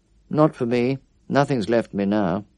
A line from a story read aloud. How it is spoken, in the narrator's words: said curtly